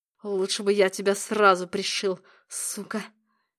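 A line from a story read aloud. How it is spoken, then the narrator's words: Hiss. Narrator (Russian): прошипел он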